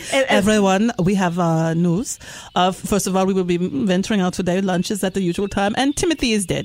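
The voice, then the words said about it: Put-on Namibian accent. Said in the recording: “my lame attempt at a Namibian accent ... Your narcans is very good.”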